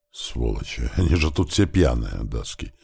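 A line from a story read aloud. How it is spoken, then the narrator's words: Hissing. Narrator (Russian): зашипел Гюнтер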